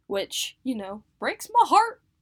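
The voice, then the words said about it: Put-on Southern US accent. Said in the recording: “In the southern accent.”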